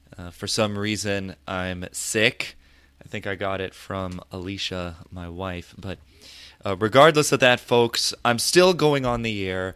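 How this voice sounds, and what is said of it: Deeper, hoarse sick-sounding voice. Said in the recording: “my voice sounds a little deeper than usual or a little bit more hoarse ... I'm under the weather ... I probably sound like death ... a hoarse voice”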